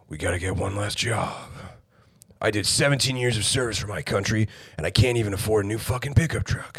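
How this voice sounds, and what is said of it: Deliberately deep, lowered voice. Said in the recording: “I could go around talking like this all the time ... Or even lower. We could talk like this”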